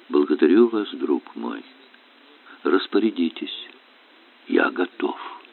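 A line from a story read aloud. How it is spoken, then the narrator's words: Calm. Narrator (Russian): Император спокойно говорит ей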